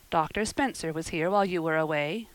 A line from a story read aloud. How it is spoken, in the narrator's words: Marilla said